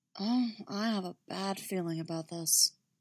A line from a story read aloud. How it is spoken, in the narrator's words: catch his breath, murmuring